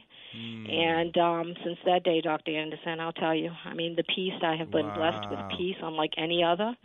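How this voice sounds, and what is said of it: Boston accent. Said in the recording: “are you from New York? I hear an accent. ... That's a Boston accent.”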